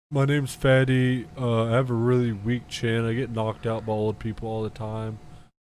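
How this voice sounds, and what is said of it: Imitates another person's voice. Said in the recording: “Give me your best impression. Who can you do a really good impression of? ... You. ... my impression”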